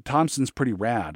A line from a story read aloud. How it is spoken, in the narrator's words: I said